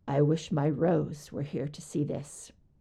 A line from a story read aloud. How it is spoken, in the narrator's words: he says quietly